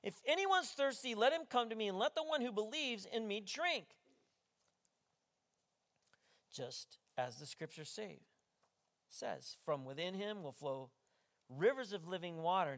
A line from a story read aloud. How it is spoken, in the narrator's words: Jesus stood up and he shouted out